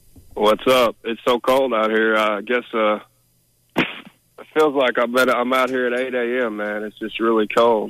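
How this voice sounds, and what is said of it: Sick, congested-sounding voice. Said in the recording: “I got a cold, too, by the way. I don't know if you can hear it in my voice.”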